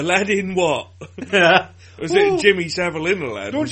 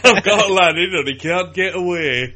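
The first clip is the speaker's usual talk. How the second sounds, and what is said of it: Put-on Yorkshire accent. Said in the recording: “that works in a Yorkshire accent”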